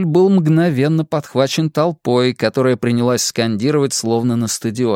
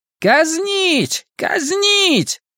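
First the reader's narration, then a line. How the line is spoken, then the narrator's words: Shout from crowd. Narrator (Russian): Кто-то крикнул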